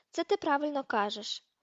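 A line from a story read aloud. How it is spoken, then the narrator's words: Heavy sigh. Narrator (Ukrainian): важко зітхнув Дерк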